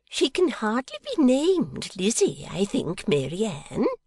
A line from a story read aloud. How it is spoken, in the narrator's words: returned Miss Peacher, in a tunefully instructive voice